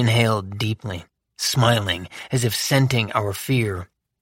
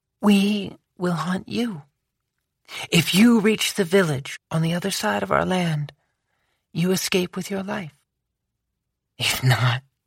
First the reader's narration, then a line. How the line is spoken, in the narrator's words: she said softly